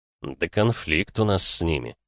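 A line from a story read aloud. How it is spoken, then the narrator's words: Through gritted teeth. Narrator (Russian): процедил Григор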